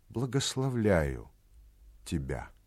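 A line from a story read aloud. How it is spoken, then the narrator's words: Moved, touched voice. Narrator (Russian): сказал он ей тронутым голосом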